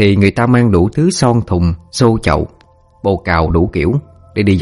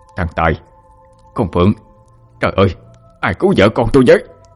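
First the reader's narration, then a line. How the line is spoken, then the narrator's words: Panicked shout. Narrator (Vietnamese): Ông sực tỉnh bàng hoàng, hét lên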